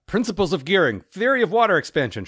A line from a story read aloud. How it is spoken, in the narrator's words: shouted Ern